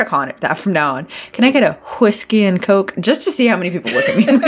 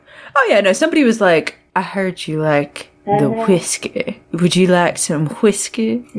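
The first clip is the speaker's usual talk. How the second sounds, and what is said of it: Put-on Southern accent, aspirated WH. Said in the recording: “that southern accent where they pronounce the WH in everything, the what, why, whiskey”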